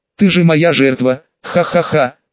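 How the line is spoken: Loud laughter. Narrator (Russian): снова расхохотался он

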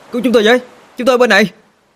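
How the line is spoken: Loud shout. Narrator (Vietnamese): Minh Long hét lớn

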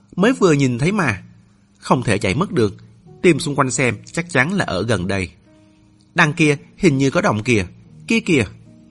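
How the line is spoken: Loud shouting. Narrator (Vietnamese): có người lớn tiếng

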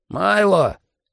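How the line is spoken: Shouted. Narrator (Russian): крикнул предтеча

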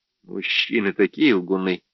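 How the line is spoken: Calm remark. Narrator (Russian): спокойно заметила

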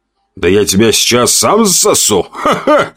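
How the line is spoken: Loud laughter. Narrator (Russian): расхохотался я

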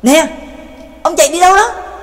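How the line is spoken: Anxious loud shout. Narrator (Vietnamese): Trác Mộc Cường Ba vẫn không yên tâm, hét lớn

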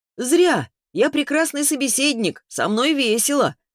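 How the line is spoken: Shouted after someone. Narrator (Russian): в спину ей прокричал

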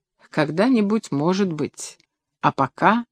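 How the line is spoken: Quiet, embarrassed. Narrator (Russian): Под пристальным взглядом Власова она смутилась, негромко сказала

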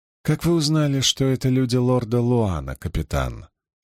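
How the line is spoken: Calm question. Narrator (Russian): спокойно спросила Илэйн

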